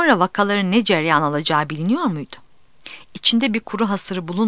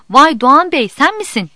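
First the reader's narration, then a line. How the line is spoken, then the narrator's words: Shouted. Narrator (Turkish): diye bağırdı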